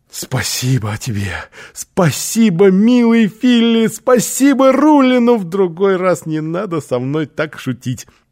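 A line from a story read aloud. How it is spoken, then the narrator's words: Exclaimed. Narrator (Russian): Оскар воскликнул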